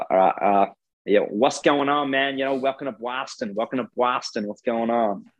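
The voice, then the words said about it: Weak attempt at Boston accent. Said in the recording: “Give us your best Boston or American accent ... I reckon I'm hopeless”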